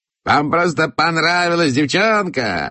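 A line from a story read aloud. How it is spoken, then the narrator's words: Shouted. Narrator (Russian): закричал он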